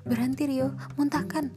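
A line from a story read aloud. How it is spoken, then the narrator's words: Shouting again. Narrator (Indonesian): teriak Ura lagi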